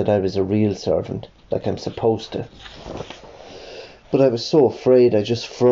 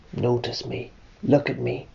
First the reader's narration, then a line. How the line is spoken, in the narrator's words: it whispered